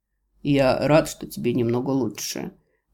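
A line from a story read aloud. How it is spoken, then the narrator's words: Calm, quietly amused. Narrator (Russian): начинает беседу спокойно, но со смешинками в глазах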